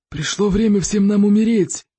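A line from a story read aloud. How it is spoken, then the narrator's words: Roaring growl. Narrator (Russian): прорычал зеленый смерч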